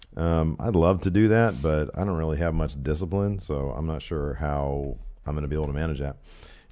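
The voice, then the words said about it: Hoarse, strained sick voice. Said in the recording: “your throat's bothering you, yes? ... it's my throat ... Whenever I get sick, my voice leaves me ... You lose your voice.”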